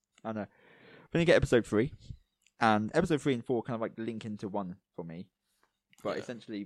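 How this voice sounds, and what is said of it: Strained, fading voice. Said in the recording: “I'm losing my voice now.”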